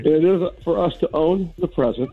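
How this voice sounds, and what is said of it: Stiff, scripted reading-aloud delivery. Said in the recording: “he's reading this. He's definitely reading this. ... He sounds like a hostage reading a ransom note.”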